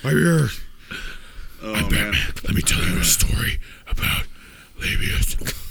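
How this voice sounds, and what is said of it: Gravelly Batman impression voice. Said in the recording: “That's my Batman impression ... It sounded like somebody else ... That sounds like a caricature of Richard Nixon right there.”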